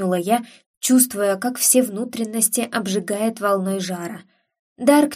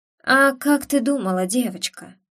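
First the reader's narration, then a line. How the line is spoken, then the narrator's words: Soft purring voice. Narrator (Russian): проговорил он тихим, мурлыкающим голосом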